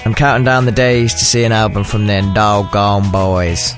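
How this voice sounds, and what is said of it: Poor imitation of American accent. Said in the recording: “my appalling imitation of your fair accent ... anyone listening in from America”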